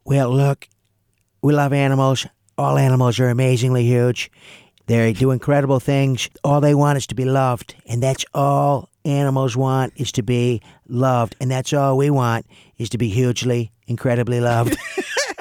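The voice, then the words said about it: Donald Trump impression. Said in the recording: “the impression of Donald Trump ... I love that impression.”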